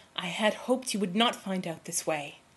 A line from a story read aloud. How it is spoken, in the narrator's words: he said in a low tone